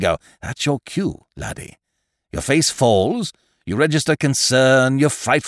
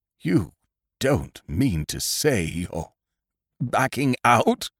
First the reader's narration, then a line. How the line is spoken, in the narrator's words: He said, in a low, quivering voice